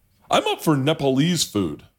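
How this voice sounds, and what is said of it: Imitates another person's voice. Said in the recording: “this is my impression. I'll do the impression of the three of you guys... Peter is the one that goes”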